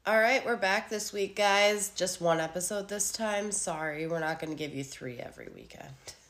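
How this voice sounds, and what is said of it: Sick-sounding voice. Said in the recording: “apologize for my voice this week. I've been sick for the last 6 days”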